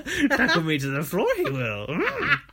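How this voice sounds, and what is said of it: Yoda-style imitated voice. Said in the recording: “It's like Yoda. ... that's your new Anne accent.”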